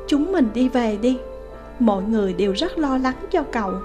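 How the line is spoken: Hesitant, soft. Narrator (Vietnamese): do dự, cuối cùng khẽ nói

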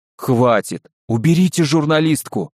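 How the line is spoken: Pleading. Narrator (Russian): взмолился задержанный

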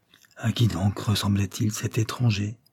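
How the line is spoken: Quiet question. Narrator (French): demanda tout bas Barbara

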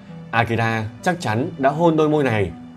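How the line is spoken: Muttering to herself. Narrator (Vietnamese): Kanako đến bên cạnh Amy, nhìn chằm chằm vào đôi môi run rẩy của Amy và tự lẩm bẩm

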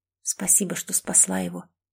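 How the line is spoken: Whisper. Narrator (Russian): прошептала

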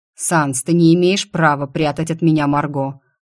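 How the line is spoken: Growling. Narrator (Russian): рычал Аврор

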